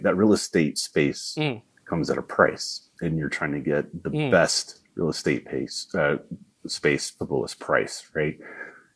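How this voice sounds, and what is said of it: Southern American accent. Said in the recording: “that's my southern accent.”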